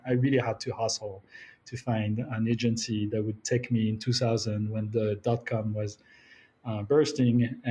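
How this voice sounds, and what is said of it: French accent in English. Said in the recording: “I'm French, as you can tell by the accent”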